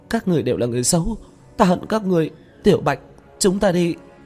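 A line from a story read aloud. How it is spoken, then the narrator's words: Crying. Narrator (Vietnamese): Lôi Tú khóc lóc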